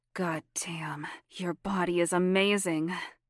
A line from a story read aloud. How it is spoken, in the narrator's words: Sabrina laughed quietly